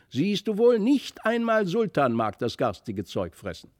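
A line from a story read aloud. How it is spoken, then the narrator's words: Triumphant call. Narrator (German): rief Felix nun triumphierend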